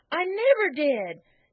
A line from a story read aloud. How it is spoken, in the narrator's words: exclaimed Peter indignantly